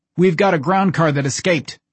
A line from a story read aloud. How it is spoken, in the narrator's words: Cage shouted